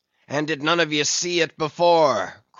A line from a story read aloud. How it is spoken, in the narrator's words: cried Ahab, hailing the perched men all around him